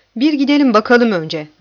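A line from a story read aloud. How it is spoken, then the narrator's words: Barely audible voice. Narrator (Turkish): dedi zor duyulur bir sesle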